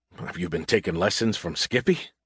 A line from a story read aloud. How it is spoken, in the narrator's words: I laughed bitterly